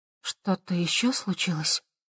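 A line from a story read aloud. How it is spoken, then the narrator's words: Quiet question. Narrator (Russian): тихо спросила Хавея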